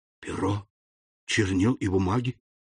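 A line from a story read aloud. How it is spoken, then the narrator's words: Mutter. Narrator (Russian): пробормотал Фернан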